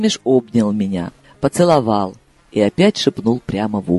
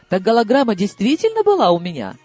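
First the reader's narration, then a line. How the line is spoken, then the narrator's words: Curious exclamation. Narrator (Russian): сгорая от любопытства, воскликнула я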